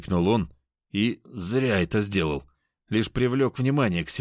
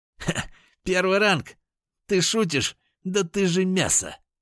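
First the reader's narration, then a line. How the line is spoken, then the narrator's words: Sudden loud laughter. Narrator (Russian): Вдруг расхохотался парень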